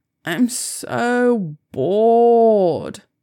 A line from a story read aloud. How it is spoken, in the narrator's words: moan